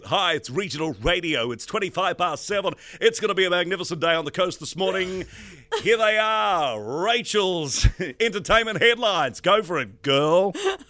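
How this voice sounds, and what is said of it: Upbeat regional radio announcer voice. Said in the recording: “Did you have a regional radio voice?”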